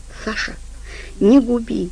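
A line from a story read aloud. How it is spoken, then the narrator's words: Whispered. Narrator (Russian): прошептала она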